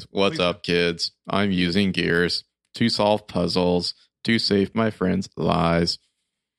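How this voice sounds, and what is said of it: Robotic imitation of another person's voice. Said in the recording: “let me do that in Keegan voice ... That impression was perfect ... he played it so robotic at times”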